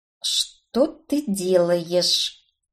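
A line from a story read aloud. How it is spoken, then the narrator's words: Angry, through gritted teeth. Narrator (Russian): процедила я сквозь зубы, удивляясь, почему от злости не заикаюсь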